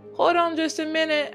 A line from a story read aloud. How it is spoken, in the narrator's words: I shouted